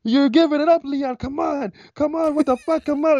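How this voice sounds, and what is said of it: Imitates coaches yelling at a fighter. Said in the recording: “That was a really good impression, by the way. You nailed that.”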